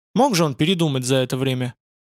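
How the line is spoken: Skeptical hmph. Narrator (Russian): Аксиал хмыкнул

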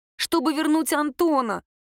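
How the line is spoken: Embarrassed girl, forced out. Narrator (Russian): смущенно выдавила девушка

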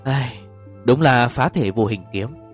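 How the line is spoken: Sighing. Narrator (Vietnamese): Vương Tiểu Thạch thở dài một tiếng nói

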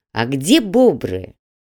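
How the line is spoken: Snide question. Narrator (Russian): ехидно поинтересовался Грег

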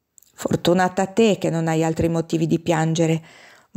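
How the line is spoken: Murmur. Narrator (Italian): mormorò

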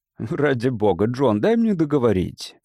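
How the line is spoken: Laughing. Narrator (Russian): засмеялся Рассел

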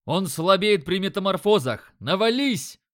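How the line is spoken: Yelling. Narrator (Russian): орал я

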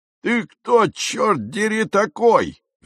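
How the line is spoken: Roaring. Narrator (Russian): взревел он

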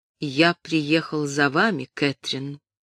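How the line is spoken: Calm. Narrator (Russian): спокойно сказал Джон

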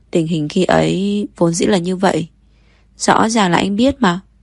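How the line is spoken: Choked, sulky stammer. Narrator (Vietnamese): Kiều Mộc nghẹn lại, ấp úng hai tiếng, mặt cũng đỏ rực, giận dỗi nói

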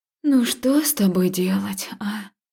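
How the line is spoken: Heavy helpless sigh. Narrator (Russian): Я тяжело вздохнула, признавая свою беспомощность

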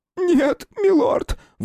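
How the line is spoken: Shrill squeal. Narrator (Russian): взвизгнул свидетель

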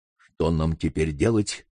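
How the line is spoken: Whispered question. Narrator (Russian): шепотом спросил сэр Генри

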